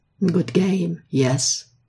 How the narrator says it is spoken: Ilya had said to him sweetly

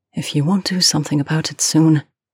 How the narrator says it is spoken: her voice came out unsteady as she said

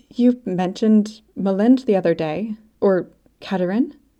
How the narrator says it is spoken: Her voice was tight

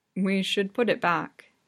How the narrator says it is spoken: he says evenly

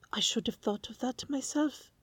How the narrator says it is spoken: Sherlock exclaims

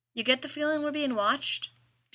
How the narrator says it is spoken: Dean asked

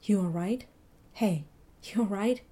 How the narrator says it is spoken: Mitchell whispered

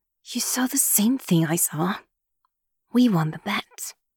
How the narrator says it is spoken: Yumi says in a low voice through gritted teeth so as not to draw attention

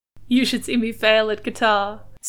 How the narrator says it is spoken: Steed laughed

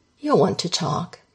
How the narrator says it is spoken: he says

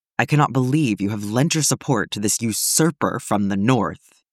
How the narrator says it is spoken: Denethor hisses

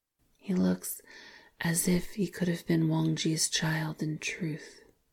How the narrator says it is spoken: he said softly

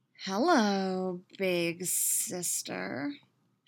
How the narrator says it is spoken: she drawls, a sick smirk on her lips

